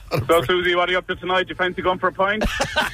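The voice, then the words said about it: Good put-on accent. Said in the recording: “That's good accent. That is nice. Well done.”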